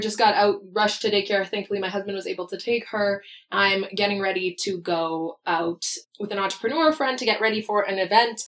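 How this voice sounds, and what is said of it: Raspy, partly lost voice. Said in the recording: “my voice is a little different. I lost my voice this week ... We were sick ... So my voice is a little raspy,”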